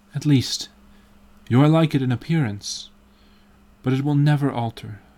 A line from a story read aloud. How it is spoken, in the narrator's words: sighed Hallward